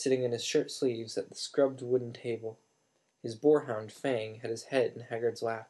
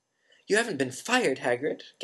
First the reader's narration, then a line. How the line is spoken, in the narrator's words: gasped Hermione